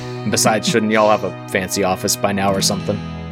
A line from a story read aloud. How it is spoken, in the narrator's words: Leon laughs, a deep, rich laugh